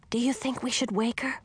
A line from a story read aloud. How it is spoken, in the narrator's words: whispered